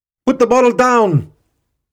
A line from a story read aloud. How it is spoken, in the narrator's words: Screams of panic erupted from the 100-odd tourists